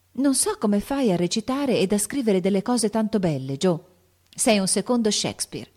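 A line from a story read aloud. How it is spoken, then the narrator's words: Exclaimed. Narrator (Italian): esclamò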